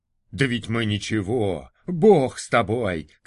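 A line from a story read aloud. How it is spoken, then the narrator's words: Crowd shouting. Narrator (Russian): кричала публика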